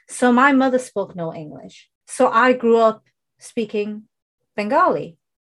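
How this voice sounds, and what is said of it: British accent, not Indian. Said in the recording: “even though I was born in the UK, you can tell from my accent, I don't have an Indian accent”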